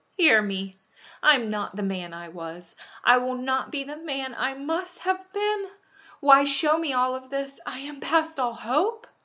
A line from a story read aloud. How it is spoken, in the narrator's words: he cried